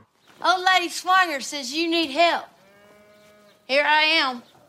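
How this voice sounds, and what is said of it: Very broad Southern American accent. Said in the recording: “Renee Zellweger, who's actually from the South. And her accent is so big that you'd be forgiven for wondering if she was the faker ... It sounds like she's the one putting on the accent”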